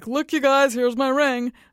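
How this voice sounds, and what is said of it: Boastful show-off tone. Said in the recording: “That's the tone of voice I imagine would be behind the photo”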